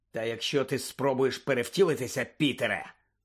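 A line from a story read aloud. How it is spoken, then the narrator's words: Growled. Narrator (Ukrainian): прогарчав Блек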